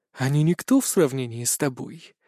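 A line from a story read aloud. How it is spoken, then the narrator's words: Whisper. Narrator (Russian): прошептала моя темная сторона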